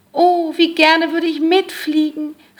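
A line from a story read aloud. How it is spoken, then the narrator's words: Calling out. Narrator (German): rief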